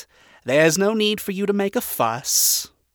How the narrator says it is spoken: he chuckled

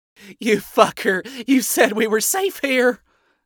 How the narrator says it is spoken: the other screamed

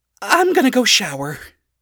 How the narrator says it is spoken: she blurted out

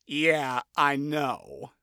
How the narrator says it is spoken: Blitzo replied icily

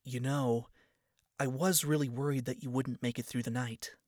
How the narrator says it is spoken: she said quietly

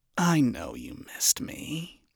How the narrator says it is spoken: she hissed, leaning in closer, with a grin that was both predatory and intimate

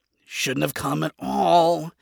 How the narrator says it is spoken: Adam muttered

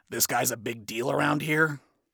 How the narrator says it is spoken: Adam muttered to himself

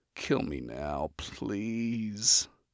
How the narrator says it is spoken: I mumble, feeling dead inside

